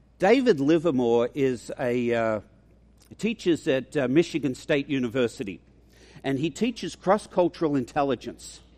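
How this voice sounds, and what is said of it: Mixed Australian-American accent. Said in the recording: “It's a mongrel accent. I'm an Australian, but I've lived here for 40 years. So anybody with an educated ear probably says I'm from New England ... people have thought I'm from Texas ... South Africa gets close.”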